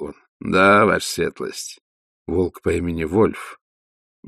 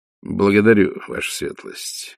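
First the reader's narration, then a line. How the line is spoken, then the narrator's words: Gloomy. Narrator (Russian): мрачно ответил тот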